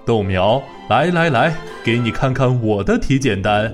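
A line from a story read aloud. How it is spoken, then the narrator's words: Loud laughter. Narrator (Chinese): 豌豆大伯听了豆苗姑娘的话之后大笑起来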